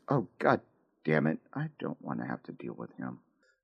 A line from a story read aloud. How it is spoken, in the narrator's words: she's about to whisper under her breath